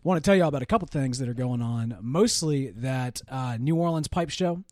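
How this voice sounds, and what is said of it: Slightly gruff, hoarse voice. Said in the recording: “I mentioned that I was losing my voice. ... I'm still still a little gruff”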